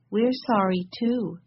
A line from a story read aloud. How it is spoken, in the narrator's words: said Violet sadly